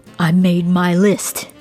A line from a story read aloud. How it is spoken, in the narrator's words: he growled